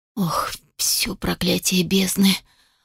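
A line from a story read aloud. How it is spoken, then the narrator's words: Stunned whisper. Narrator (Russian): прошептал пораженно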